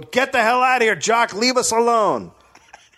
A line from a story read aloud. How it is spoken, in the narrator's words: Arnie screamed at Jock